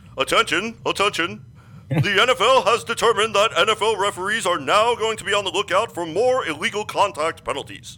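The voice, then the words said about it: Official announcer voice. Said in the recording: “put on my official voice... get my official announcer's voice”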